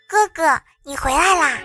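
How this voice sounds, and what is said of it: Sweet little girl's voice. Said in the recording (Chinese): “小萝莉甜甜的声音说”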